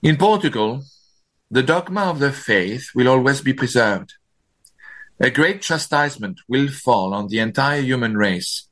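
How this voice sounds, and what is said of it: French accent. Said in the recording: “Please forgive my French accent.”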